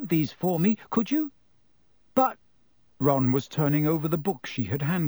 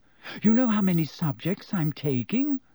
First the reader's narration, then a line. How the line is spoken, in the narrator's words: Said Hermione breathlessly